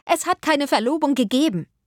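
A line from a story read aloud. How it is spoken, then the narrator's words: Calling out. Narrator (German): rief Marianne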